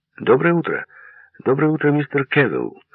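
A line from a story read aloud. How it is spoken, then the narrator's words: Brisk, energetic greeting. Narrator (Russian): бодро и энергично поздоровался лейтенант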